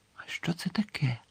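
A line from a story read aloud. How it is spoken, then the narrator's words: Quiet question. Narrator (Ukrainian): тихо запитав Гаррі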